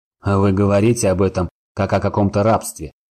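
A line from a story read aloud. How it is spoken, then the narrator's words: Scoffing. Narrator (Russian): хмыкнул Сорил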